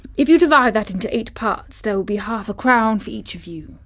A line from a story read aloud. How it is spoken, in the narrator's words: he said